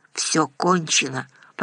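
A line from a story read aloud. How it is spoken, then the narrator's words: Muttered. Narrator (Russian): пробормотал Владимир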